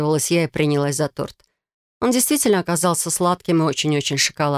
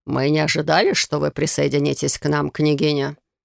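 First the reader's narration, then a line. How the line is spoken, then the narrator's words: Creaky voice. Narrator (Russian): скрипучим голосом заметил советник Аморалис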